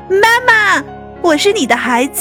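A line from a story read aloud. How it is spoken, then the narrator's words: Two voices calling together. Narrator (Chinese): 两只小白兔一齐叫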